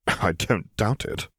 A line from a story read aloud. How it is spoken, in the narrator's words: Piet muttered